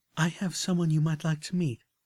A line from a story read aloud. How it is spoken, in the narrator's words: Velvet continued, her voice warm and accepting